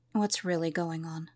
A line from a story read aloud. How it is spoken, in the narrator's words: Caden quietly asked